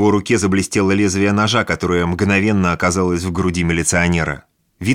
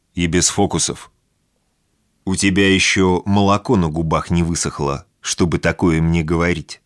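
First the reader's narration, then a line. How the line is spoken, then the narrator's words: Calm male reply. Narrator (Russian): спокойно ответил мужчина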